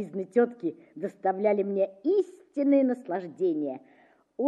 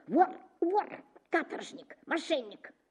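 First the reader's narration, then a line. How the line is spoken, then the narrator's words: Sharp insistent whisper. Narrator (Russian): резким шепотом твердила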